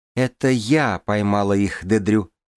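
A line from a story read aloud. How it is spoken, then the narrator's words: Plain. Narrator (Russian): сказала я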